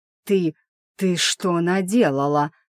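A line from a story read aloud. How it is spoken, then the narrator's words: Angry hiss. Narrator (Russian): прошипел он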